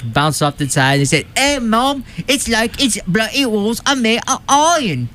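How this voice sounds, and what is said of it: Awful put-on English accent. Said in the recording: “Is that your English accent? Yeah. That is awful. ... It's also my Irish accent, which is even worse.”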